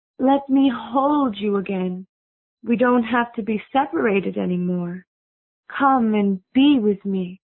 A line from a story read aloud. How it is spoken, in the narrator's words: said in a sweet voice